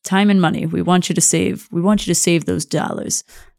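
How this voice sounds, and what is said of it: Mob boss character voice. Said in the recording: “sound like a mob boss”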